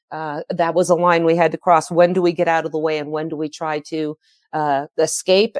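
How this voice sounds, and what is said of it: Very hoarse voice. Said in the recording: “my voice is very hoarse. ... My lungs are getting a little congested.”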